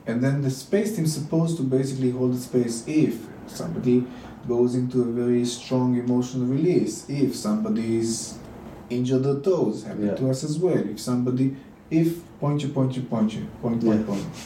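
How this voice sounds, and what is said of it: Israeli accent with Dutch tinge. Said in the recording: “I love your Israeli accent with the Dutch.”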